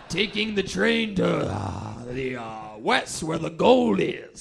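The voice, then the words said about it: Old-timey gold prospector voice. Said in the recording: “my prospector impression”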